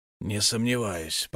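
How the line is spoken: Muttered. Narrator (Russian): пробормотал Эл

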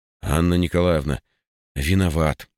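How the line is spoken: Sighing. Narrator (Russian): вздохнул я

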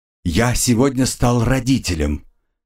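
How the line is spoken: Joyful announcement. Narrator (Russian): радостно огорошил

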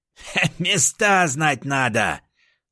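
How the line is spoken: Power-drunk raccoon guffawing. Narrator (Russian): хохотал енот, опьяненный мощью мехбосса

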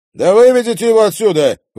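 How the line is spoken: Indignant shout from crowd. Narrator (Russian): возмущенно крикнул кто-то из толпы

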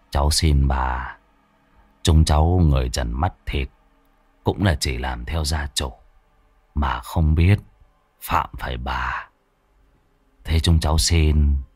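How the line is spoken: Muttering. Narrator (Vietnamese): Bác Kim lẩm bẩm

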